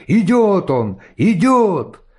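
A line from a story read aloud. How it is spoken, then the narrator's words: Sudden exclamation. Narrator (Russian): Вдруг кто-то воскликнул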